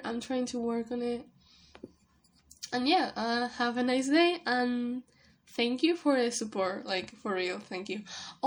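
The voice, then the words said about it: Non-native English accent. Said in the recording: “I'm sorry for my English, and I'm sorry if I, like, mispronounce some words. My accent is really weird.”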